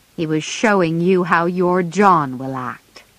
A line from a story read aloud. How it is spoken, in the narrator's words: answered Joe crossly